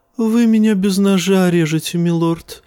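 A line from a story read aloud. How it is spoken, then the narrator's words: Sighing. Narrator (Russian): вздохнул евнух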